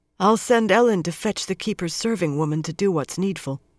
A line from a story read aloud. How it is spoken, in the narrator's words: Swan said in a husky voice